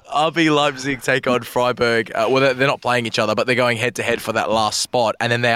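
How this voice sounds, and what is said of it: Usual voice. Nothing is said of it.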